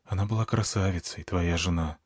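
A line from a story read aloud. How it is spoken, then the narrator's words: Quiet. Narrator (Russian): тихо сказала Змеямба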